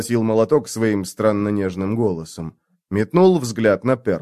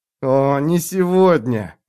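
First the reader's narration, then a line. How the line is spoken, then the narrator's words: Moan. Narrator (Russian): застонал Перл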